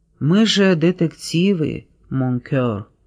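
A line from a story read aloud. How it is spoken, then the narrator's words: Whispered. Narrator (Russian): прошептал в свежую волну волос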